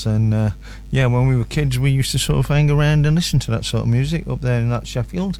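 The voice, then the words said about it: Stronger northern English accent. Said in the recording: “talking in a more northern accent... I've got my northern on a bit more”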